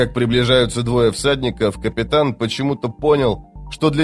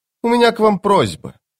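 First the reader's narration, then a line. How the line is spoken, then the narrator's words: Snorting captain. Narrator (Russian): капитан хмыкнул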